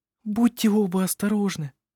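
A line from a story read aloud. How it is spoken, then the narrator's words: Whispered. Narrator (Russian): прошептала она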